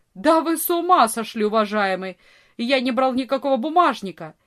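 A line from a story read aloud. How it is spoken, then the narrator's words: Furious shout. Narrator (Russian): яростно закричал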